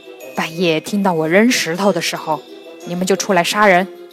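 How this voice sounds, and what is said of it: Quiet, hushed voice. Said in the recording (Chinese): “小声对缸里的强盗们说”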